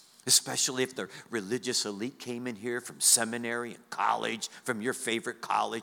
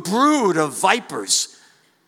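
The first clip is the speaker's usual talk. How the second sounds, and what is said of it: Yelling. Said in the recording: “I'm yelling”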